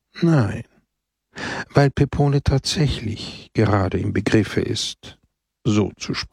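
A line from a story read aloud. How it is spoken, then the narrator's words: Sighing answer. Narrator (German): antwortete Christus seufzend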